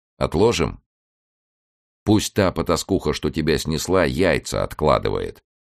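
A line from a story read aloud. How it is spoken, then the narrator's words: Firm, calm reply. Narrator (Russian): ответил он твердо и спокойно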